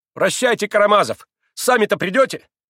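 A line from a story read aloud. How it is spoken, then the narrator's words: Sharp angry shout. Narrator (Russian): резко и сердито крикнула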